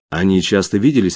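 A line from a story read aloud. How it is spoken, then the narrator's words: Plain. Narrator (Russian): ответила Джастин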